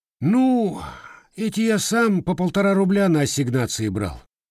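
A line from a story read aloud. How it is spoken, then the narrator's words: Sighing. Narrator (Russian): вздохнул Никола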